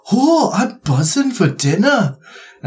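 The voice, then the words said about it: Put-on Scottish accent. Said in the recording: “That was a great Scottish accent. ... Terrible. Terrible.”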